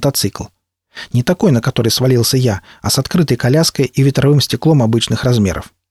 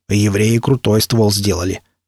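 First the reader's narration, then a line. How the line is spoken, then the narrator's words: Approving mutter. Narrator (Russian): одобрительно пробурчал Никита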